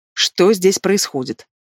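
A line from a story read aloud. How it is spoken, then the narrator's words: Menacing question. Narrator (Russian): грозно вопрошает Ирина Григорьевна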